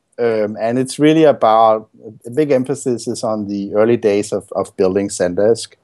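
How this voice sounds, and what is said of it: Danish-sounding accent. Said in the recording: “It's like a part Danish, Russian kind of accent”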